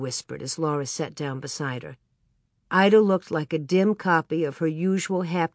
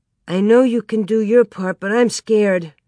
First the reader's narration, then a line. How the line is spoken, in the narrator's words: Ida quavered